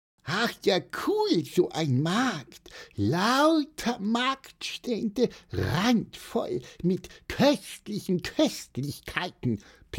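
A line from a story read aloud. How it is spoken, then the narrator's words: Squeaky chirp. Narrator (German): piepste Pieper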